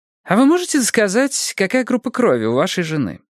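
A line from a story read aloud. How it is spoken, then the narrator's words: Cheerful. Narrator (Russian): Бонни бодро произнесла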